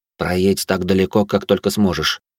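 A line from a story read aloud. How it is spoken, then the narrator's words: Whisper. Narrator (Russian): шепнул я вояке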